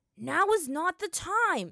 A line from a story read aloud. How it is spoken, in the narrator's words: Sokka shouted her exasperatedly